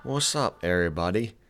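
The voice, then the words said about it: Greeting in an odd put-on accent. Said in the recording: “I don't know what accent that was”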